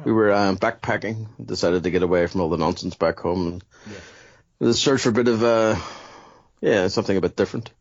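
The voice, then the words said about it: Belfast accent, not Australian. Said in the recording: “you don't have the typical Australian twang ... this is a very proud Belfast accent”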